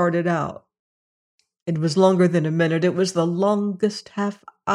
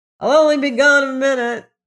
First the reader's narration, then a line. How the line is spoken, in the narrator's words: yelled